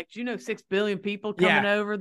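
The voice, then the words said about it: Put-on Southern US accent. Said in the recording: “I just default to the Southern accent.”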